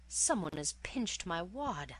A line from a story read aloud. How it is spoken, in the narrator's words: wailed